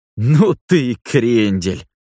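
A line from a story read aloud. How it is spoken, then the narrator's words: Laughing loudly. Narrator (Russian): расхохотался Мэтт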